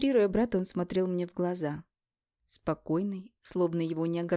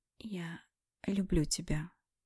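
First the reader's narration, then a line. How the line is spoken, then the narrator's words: Whisper. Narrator (Russian): прошептала я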